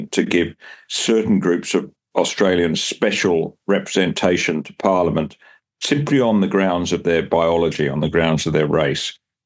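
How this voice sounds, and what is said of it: English accent. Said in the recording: “you can probably hear from my accent, I'm originally from England”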